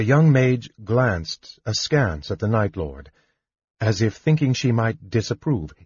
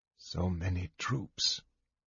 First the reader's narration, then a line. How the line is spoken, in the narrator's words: said softly to himself